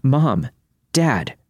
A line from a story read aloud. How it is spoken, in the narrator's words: heard me yell out